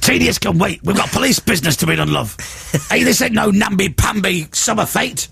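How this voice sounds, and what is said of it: Gruff shouting voice. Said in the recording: “All you're doing is shouting in a gruff voice”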